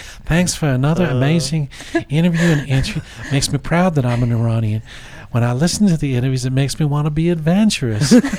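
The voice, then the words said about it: Weird put-on southern accent. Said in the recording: “you're doing a weird accent ... it's like a southern weird kind of like”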